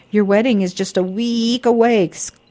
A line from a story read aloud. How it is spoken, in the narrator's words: exclaimed the mouse